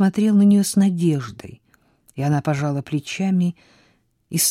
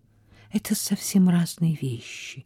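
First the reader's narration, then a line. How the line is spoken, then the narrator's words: Sad. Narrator (Russian): грустно добавила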